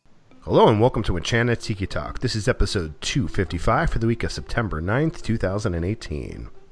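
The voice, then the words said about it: Strained voice, sounds sick. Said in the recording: “As you can hear in my voice, it's a little bit strained. I've been sick for the last week”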